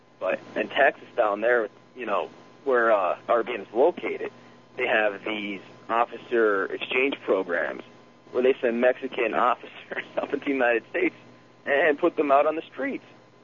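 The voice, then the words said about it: Pennsylvania coal region accent. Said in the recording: “I'm from Pennsylvania, so you can probably tell by my coal crackers accent.”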